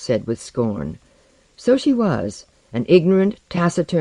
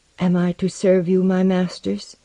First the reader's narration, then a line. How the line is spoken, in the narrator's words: she inquired timidly, but without sullenness